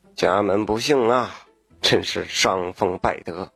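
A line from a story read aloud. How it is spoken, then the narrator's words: Constant muttering. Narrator (Chinese): 嘴里还不停的嘀咕着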